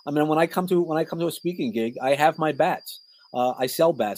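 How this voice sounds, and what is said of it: New York accent. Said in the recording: “I come from New York. So having a New York accent”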